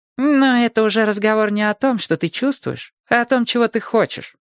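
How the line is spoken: Calm objection. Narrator (Russian): спокойно возразил Вух

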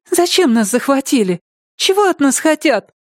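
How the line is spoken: Very thin little voice. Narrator (Russian): добавила совсем тоненьким голоском

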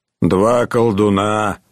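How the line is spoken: Grumbling mutter. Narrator (Russian): пробурчал Буко

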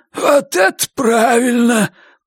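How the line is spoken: Hoarse wheeze. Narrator (Russian): прохрипел тот

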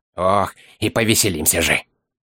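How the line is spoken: Predatory hiss. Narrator (Russian): Хищно прошипел Дори

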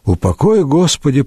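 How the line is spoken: Muttered. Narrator (Russian): пробормотал Гранчишек

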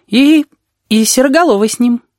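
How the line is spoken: Uncertain. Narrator (Russian): неуверенно добавил Пышка

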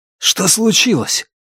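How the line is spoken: Anxious, wary question. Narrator (Russian): взволнованно и настороженно спросил

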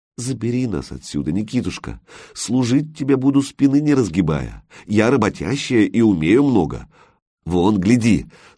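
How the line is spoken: Pleading. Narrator (Russian): попросила

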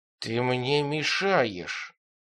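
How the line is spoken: Hiss, foreign language. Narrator (Russian): прошипел он по-банжурски

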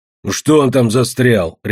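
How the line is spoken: Barked by a grouch. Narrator (Russian): рявкнул ворчун

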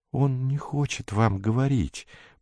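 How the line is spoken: Whisper. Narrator (Russian): прошептал он

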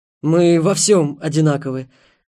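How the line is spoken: Suddenly hoarse voice. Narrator (Russian): с прорезавшейся хрипотой сказал Ярослав

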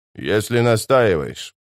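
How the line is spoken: Grumbling sorcerer. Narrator (Russian): проворчал чародей

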